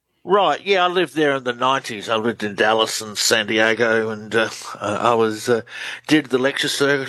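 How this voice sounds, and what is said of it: Australian accent. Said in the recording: “Australian researcher. Love the accent.”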